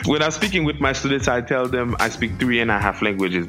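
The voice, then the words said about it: Strong foreign accent. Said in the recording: “I am really fascinated by how strong your accent continues to be.”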